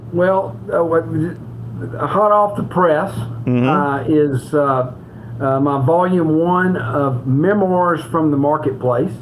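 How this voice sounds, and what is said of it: Southern US accent. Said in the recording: “all the way from Memphis, Tennessee. You can't tell that from his accent at all.”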